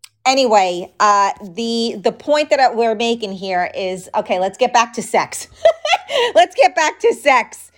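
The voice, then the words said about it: New York accent. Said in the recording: “I'm from New York, so this is my accent.”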